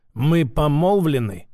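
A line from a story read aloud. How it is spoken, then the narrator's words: Said through clenched teeth. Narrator (Russian): процедил Вяземский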